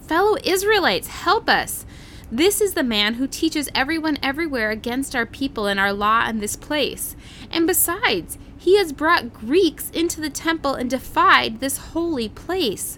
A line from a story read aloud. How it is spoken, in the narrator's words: They shouting